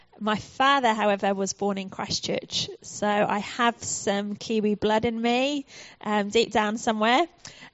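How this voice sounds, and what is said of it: British English accent. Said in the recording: “you might notice from my accent that I am, in fact, from the UK”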